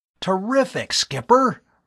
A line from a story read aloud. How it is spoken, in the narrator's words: Bud exclaimed